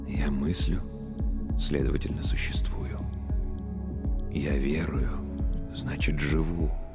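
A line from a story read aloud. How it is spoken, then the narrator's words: Whispered, priest. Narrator (Russian): прошептал священник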